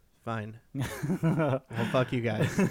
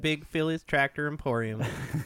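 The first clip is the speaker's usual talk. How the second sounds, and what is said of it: Put-on Southern accent. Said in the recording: “with my best Southern accent”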